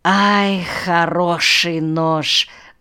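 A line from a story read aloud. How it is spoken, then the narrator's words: Sighing. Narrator (Russian): вздохнул Шаша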